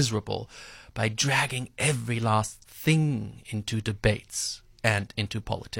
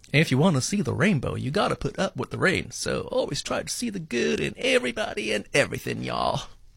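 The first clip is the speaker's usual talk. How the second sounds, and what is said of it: Put-on Southern drawl. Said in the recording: “my best southern drawl”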